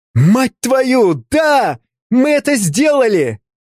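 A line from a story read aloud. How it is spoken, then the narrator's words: Excited shout. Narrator (Russian): закричал Артемий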